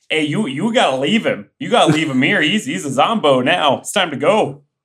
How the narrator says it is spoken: Aaron yells to Augie

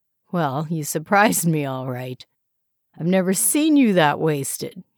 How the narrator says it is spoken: chuckled

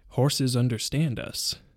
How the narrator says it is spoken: murmured Tom to himself

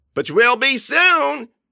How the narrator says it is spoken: Grossman yelled

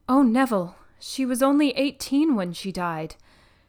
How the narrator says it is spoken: she had exclaimed

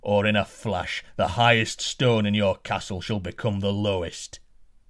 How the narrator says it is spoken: roared the giant

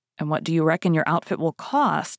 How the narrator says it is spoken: said D'Artagnan

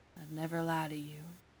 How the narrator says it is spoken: he murmurs

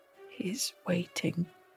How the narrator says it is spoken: the man beneath the bed mumbled

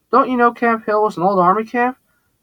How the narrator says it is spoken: Xavier replied

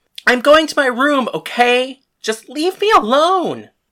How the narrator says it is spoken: yelled back

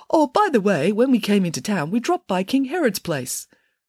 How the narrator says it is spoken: the third king piped up and said

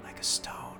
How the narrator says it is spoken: Rook whispered

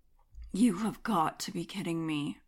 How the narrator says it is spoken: muttered under my breath

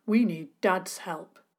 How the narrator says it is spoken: said firmly

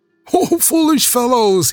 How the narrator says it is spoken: he cried

